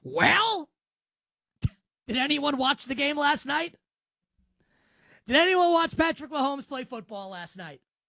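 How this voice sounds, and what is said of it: Imitates another person's voice. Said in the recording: “my best Hawk from the Legion of Doom impersonation”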